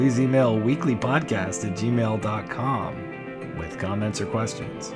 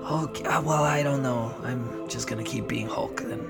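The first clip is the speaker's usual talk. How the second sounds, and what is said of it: Mark Ruffalo impression. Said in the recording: “my Mark Ruffalo impression”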